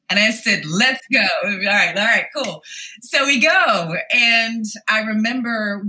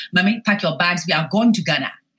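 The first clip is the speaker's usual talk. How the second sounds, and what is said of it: Imitated African-accented mother. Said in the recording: “my mom said, with her accent”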